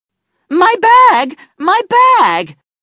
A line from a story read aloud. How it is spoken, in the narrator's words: she shouted